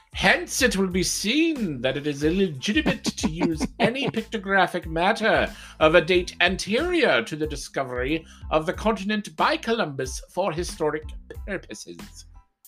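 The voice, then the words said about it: Put-on evil character voice. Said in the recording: “That was my evil voice ... Was that a good evil voice? ... It was.”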